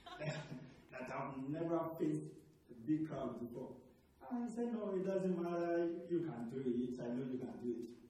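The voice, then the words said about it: Thick African accent. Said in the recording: “I have a thick accent. ... I'm from Africa, I grew up in Africa”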